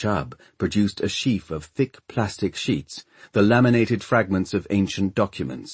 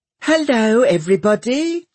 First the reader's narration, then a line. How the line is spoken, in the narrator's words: she chirped